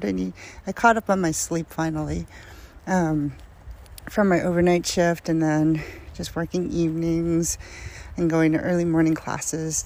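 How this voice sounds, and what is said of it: Tired-sounding voice. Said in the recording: “if I sound tired, I'm a little tired.”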